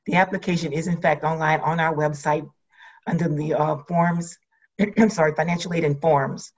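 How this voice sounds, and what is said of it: Hoarse, failing voice. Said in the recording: “losing my voice”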